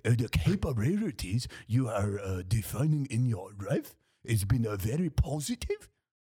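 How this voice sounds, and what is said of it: Put-on Japanese accent. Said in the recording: “That's a big word and hard to do in an accent ... Japanese accent ... Japanese like, accent.”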